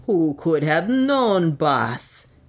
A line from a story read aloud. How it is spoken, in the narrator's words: groaned